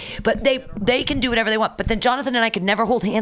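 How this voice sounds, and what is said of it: Usual voice. Nothing is said of it.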